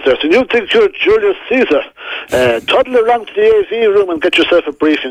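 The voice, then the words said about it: Impression of Enda Kenny. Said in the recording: “your Enda Kenny impression”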